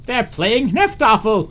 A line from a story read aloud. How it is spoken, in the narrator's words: hooted and howled